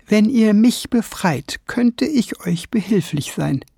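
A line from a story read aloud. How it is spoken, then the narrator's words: Sudden hesitant voice. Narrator (German): sagte plötzlich jemand mit zögernder Stimme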